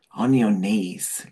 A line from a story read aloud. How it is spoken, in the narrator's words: Levant said, his voice rough and sexy